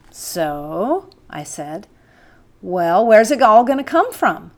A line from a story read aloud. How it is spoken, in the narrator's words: He said slowly